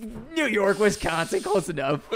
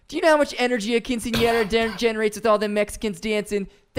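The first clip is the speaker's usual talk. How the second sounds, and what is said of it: Put-on Wisconsin accent. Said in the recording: “in a fucking Wisconsin accent?”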